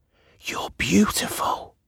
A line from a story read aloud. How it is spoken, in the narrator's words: she whispered